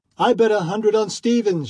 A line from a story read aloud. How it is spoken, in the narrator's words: shouted one